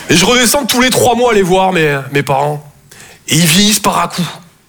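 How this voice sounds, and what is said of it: Toulouse southern French accent. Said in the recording (French): “Je viens de Toulouse à la base. Ouais, ça s'entend un peu, ouais. ... mon accent, c'est vraiment comme mon sexe, je sors que quand je suis en confiance. ... Et apparemment, avec vous, ça va super.”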